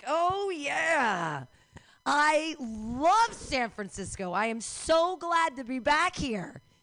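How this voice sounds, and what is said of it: Sarcastic, insincere delivery. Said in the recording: “Can you hear in my voice how I'm lying to you?”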